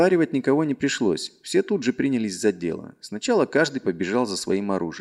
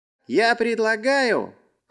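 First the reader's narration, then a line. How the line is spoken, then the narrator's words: Shout. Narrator (Russian): крикнул он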